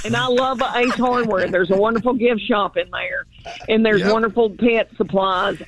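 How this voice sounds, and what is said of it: Knoxville, Tennessee accent. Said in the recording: “The accent is legit... that accent is pervasive... I love your accent.”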